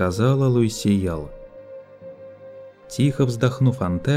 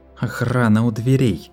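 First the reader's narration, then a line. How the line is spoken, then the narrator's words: Muttered through clenched teeth. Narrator (Russian): Процедила сквозь зубы Луисе Ял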